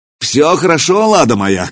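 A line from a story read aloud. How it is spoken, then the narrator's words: Governor's shout. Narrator (Russian): крикнул наместник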